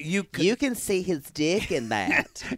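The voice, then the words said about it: Lisping impression of another person. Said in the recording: “A good Maddie impression, everybody ... I'm not lisping enough, but it's close.”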